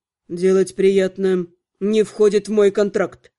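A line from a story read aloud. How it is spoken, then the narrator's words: Calm. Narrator (Russian): спокойно ответил Алиорн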